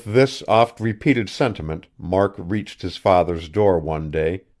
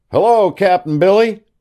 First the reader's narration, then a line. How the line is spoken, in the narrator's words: cried Mark